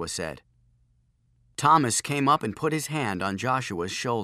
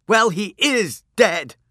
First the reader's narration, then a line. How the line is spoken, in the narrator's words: shouted Thomas back